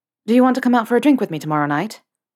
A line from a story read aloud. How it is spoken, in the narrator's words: Potter ... with his own dose of Gryffindorian courage ... blurted